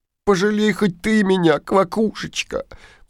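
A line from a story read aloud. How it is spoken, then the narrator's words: Princess sobbing. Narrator (Russian): всхлипывает королевна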